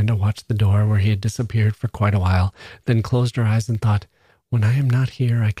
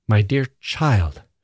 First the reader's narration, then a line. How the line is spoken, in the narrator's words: she said sharply